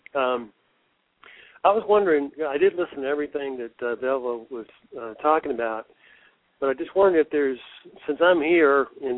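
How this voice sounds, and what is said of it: Unwell, congested-sounding voice. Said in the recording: “Sorry about my voice. I am recovering from a sinus infection.”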